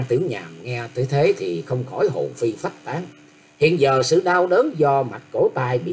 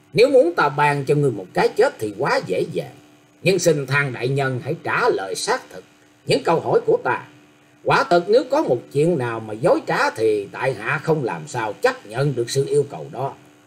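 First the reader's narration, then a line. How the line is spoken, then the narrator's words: Said with a smile. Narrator (Vietnamese): mỉm cười nói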